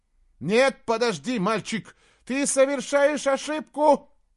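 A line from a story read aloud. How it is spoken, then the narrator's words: Shout. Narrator (Russian): закричал он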